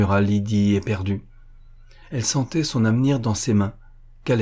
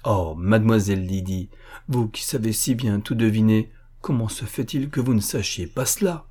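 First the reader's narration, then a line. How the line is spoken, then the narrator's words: Half serious, half playful. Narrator (French): Il parlait d'un ton moitié sérieux, moitié badin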